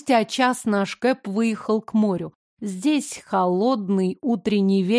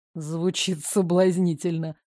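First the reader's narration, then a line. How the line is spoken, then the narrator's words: Wry snort. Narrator (Russian): хмыкнул Карен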